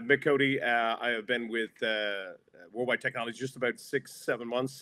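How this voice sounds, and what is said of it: Speaks with a noticeable accent. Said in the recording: “don't judge ... by the ... accent.”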